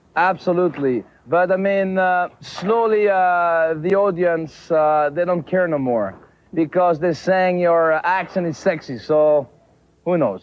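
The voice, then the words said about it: Quebec French-Canadian accent. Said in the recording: “his accent is explained in this one. He is, of course, from Quebec ... this is how they explain the accent”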